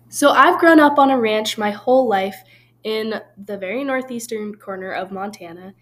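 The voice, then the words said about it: Slight northern Montana accent. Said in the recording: “I am from Montana, a very small town in the northeastern corner of Montana ... 15 miles from North Dakota and 6 miles from Canada. So if you can pick up on my accent a little, that'd be why.”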